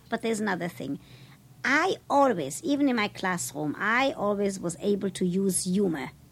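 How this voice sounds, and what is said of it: European accent. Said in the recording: “my accent ... it's only those Europeans”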